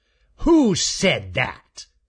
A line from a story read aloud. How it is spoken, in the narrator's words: snarled Raker